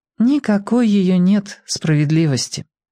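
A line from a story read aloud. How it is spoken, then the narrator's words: Sad remark. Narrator (Russian): грустно заметила Оля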